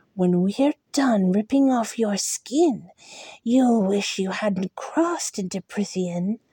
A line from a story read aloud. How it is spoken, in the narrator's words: he breathed into my face